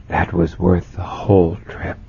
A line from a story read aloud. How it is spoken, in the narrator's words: said in a hushed voice